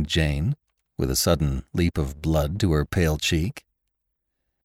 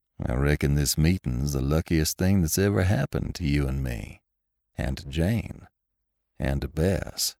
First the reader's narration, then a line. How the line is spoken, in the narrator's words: said Lassiter coolly